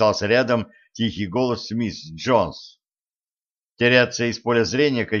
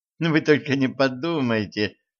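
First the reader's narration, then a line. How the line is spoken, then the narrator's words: Laughing. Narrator (Russian): засмеялась Генриетта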